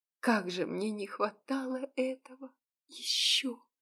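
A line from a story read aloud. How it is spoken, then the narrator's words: Whisper. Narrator (Russian): прошептала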